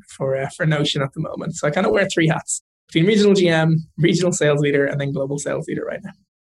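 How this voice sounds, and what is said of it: Irish accent. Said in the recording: “are European from your accent. You're from Ireland originally”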